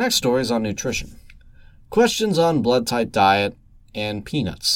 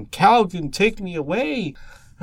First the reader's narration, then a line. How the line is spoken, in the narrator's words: in the shower and exclaim